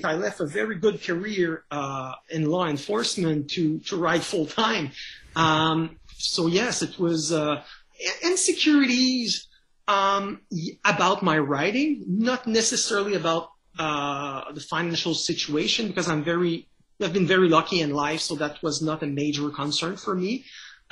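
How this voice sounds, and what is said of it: French Canadian accent. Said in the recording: “as you can tell by my accent, I'm a French Canadian”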